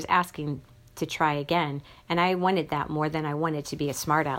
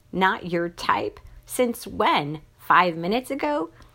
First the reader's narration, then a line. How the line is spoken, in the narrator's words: I choked that giggle back down